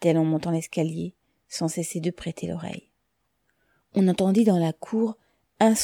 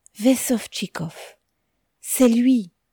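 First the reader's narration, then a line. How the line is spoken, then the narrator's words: Exclaiming. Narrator (French): s'écria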